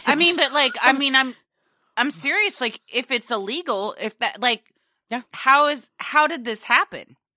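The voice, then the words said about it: Loud, raised, impassioned voice. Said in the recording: “If I'm yelling, I'm sorry ... a little bit”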